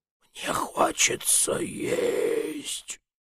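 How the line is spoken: Rather weak voice. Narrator (Russian): сказал довольно слабым голосом

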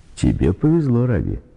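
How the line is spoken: Joyful. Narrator (Russian): радостно сказал дядя Дианарин

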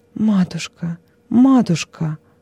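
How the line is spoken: Sobbing. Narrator (Russian): Не в силах среди рыданий вымолвить что-либо иное

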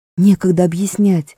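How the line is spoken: Quick whisper. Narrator (Russian): быстро зашептал Шаста

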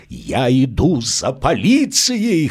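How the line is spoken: Hoarse shout. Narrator (Russian): хрипло выкрикнул он

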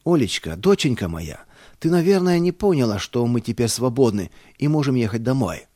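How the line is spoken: Joyful shout. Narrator (Russian): радостно закричал я

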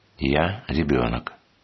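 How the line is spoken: Old man, mysteriously calm. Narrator (Russian): загадочно спокойно ответил старец

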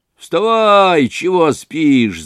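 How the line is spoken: Shouting over someone. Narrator (Russian): закричала над ним

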